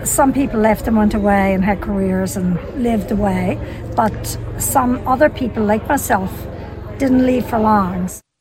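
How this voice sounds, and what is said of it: Irish accent with slight North American twinge. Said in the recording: “We didn't lose our accent ... The Irish came over here ... just enough of a twinge of North American in there ... tape from Waterford”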